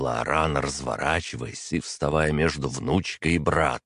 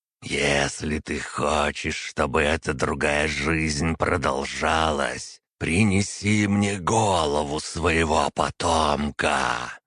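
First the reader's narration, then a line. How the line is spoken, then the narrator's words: Hissed. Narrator (Russian): прошипел действующий примарх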